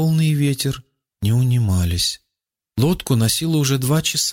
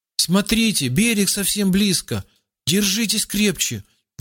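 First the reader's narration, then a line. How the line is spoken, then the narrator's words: Sudden joyful shout. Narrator (Russian): вдруг радостно закричал Руслан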